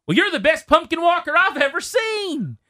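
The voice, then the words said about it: Put-on country accent. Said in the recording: “in a country accent somewhere down by Fredericksburg”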